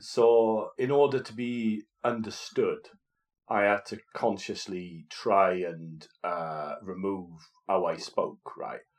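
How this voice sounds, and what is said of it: Welsh accent. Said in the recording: “my accent comes out big time ... a Welshman”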